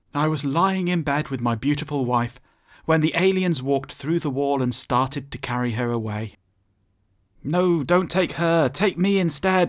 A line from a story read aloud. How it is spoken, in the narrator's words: pleaded